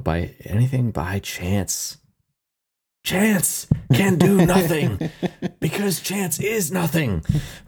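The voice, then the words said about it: Imitates another person's voice. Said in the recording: “I'll do my best worst impersonation”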